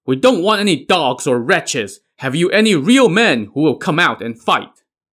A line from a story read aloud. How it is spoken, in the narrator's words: Song Jiang now shouted from his saddle